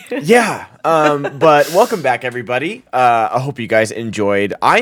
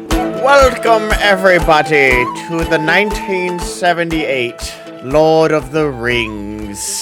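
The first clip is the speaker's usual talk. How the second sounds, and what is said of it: Gandalf impression. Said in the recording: “mimicking Gandalf ... that voice”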